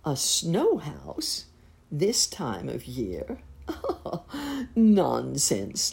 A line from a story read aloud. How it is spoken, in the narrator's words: laughed Uncle Wiggily